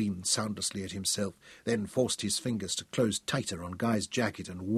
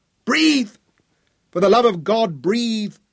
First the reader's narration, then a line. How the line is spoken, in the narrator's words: Tom shouted